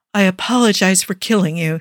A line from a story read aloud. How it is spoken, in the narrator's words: sighs